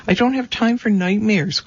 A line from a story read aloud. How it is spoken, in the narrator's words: cried Andrew